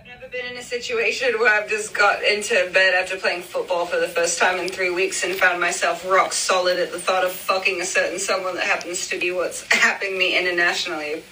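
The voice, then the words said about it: Convincing put-on British accent. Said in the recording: “I am dead at the British accent. You did such a good job. ... It sounds so good. ... And you did it perfectly”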